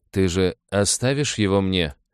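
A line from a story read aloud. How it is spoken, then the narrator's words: Frighteningly cold voice. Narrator (Russian): Голос, молчавший до того свитари, прозвучал пугающе холодно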